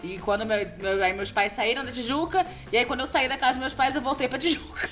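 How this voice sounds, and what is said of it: Rio de Janeiro carioca accent. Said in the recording (Portuguese): “Você tinha identificado pelo sotaque, Cláudio? ... A carioquice? Sim, sim, sim.”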